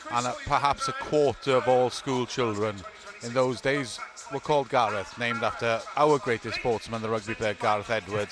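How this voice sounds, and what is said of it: Welsh accent. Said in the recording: “my accent gives the game away. I'm Welsh.”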